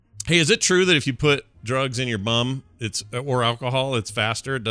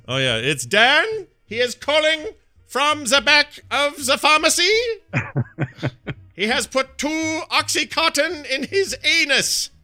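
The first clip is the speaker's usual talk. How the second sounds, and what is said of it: Put-on German accent. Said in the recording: “in that German voice”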